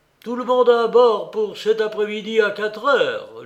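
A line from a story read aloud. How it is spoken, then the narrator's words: Distant shout. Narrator (French): lui cria de loin le chevalier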